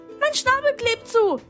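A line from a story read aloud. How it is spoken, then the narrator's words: Screeching. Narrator (German): kreischte der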